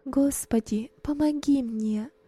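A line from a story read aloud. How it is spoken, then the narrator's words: Whisper. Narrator (Russian): шептала она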